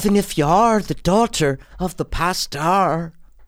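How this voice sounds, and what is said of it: Bad put-on accent, hard R's. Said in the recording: “Do that accent bad now ... it's just not good ... Dude, it's the long R's ... the hard R's ... It's so bad.”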